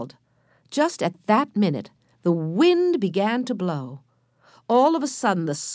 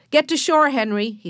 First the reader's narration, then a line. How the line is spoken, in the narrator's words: he shouted